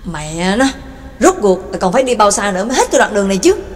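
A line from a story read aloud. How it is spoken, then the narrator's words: Angry, gritted voice. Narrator (Vietnamese): Y giận dữ gằn giọng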